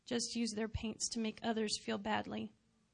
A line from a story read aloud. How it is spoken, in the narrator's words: the old one said sadly